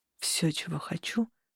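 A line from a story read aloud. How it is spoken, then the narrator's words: Quiet. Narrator (Russian): продолжил Тарухан тихо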